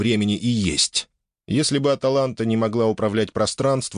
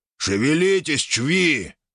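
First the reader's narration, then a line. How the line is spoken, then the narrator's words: Growl. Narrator (Russian): рыкнул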